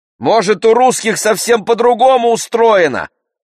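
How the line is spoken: Distant shout. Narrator (Russian): крикнула из угла Дилька, моя подружка

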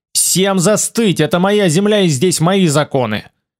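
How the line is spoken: Yelling. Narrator (Russian): Я заорал

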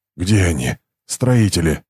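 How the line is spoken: Hoarse rasp. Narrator (Russian): прохрипел он

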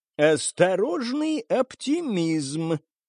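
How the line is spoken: Creaky stranger's voice. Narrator (Russian): проскрипел голос чужого

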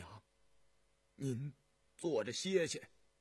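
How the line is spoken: Soft-spoken. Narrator (Chinese): 尹季善 轻声说道

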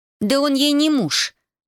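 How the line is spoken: Indignant outburst. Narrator (Russian): возмущенно вскинулась Зоя

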